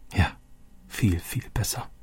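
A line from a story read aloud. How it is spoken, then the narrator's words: Quiet. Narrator (German): sagte Roberto leise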